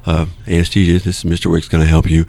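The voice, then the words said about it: Alert professional telephone voice. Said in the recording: “this is my on-call telephone voice. ... My job to sound awake.”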